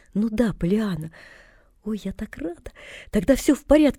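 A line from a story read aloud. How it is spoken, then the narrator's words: Relieved exclamation. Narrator (Russian): воскликнула девочка и облегченно вздохнула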